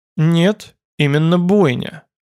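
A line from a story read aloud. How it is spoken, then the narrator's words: Calm repetition. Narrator (Russian): спокойно повторил его оппонент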